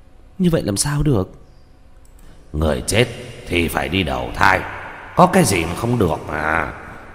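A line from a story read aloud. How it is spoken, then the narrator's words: Confused muttering. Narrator (Vietnamese): Tranh Tử trong lòng lộn xộn, lẩm bẩm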